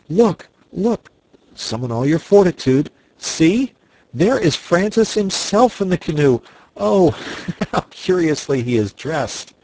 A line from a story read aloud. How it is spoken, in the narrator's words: cried they at once